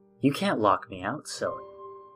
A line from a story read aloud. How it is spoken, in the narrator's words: I whispered